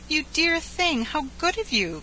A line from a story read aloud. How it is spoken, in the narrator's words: cried the angel